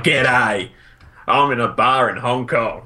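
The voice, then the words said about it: Deliberately bad Australian accent. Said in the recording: “a really awful Australian person”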